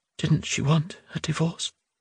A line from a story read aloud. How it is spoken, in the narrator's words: Simochka asked softly, deliberately